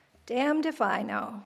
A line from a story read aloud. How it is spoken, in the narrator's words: Dad paused for a long moment, sighed heavily, and said